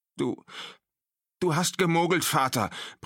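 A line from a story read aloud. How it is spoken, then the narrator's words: Panting man. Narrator (German): brachte er keuchend hervor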